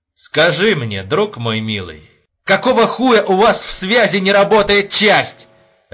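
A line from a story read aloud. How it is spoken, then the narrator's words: Barking, then breaking off. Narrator (Russian): рявкнул он и тут же осекся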